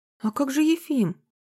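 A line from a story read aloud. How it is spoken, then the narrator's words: Confused question. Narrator (Russian): растерянно спросил ничего не понимающий Никодимыч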